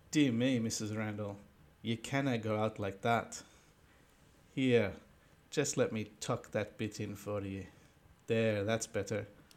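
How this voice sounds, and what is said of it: Put-on accent for a character. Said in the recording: “oh, it's our first accent.”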